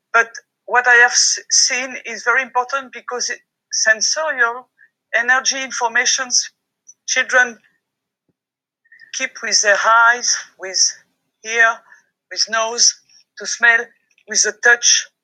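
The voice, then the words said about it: French accent speaking English. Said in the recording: “I'm French. ... I'm sorry for my accent.”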